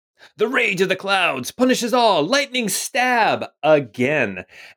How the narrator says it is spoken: he shouts out the words

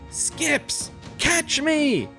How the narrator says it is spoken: yell out

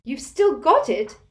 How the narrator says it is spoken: cried Hermione

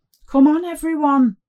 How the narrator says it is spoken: Father Cyril shouted

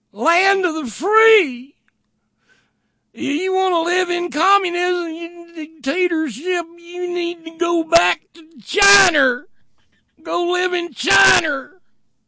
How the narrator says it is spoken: Kaylee there shrieks

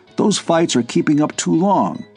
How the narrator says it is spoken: he said sharply

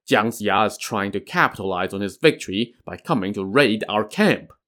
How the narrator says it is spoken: He chuckled and scoffed

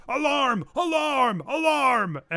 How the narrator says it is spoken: he shouts

